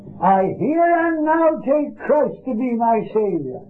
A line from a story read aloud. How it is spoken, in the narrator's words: somebody shouted out